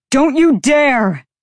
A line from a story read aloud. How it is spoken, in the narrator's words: The male bellow cracked across the space